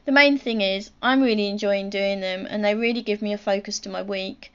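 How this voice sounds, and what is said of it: Posh-sounding telephone voice. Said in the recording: “I had a posh voice ... you do have a telephone voice.”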